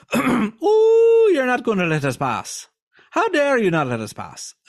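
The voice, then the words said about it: Stereotypical put-on Irish accent. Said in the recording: “maybe I'm getting a little stereotypical here. A little too Lucky Charms, possibly. No offense to the Irish.”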